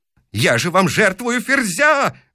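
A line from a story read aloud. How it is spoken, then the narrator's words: Yelled. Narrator (Russian): вопит он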